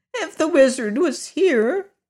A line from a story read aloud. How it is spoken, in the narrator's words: said one of the piglets, sobbing bitterly